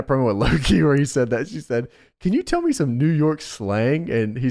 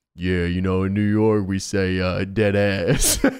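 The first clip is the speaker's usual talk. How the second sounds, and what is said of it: Low Low-Key impression, southern tinge. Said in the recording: “Doing a low-key voice is so difficult because when I go low in my voice, it goes into this southern accent. But, like, yeah, you know how low-key's voice is.”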